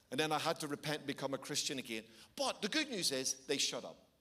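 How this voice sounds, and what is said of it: Irish accent. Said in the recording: “Having an Irish accent comes in useful because it sounds pretty edgy when you get angry”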